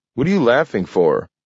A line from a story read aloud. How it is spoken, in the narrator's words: snapped Grant